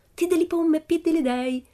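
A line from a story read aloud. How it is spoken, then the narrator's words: Pleased exclamation. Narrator (Italian): esclamò Pippi soddisfatta della scoperta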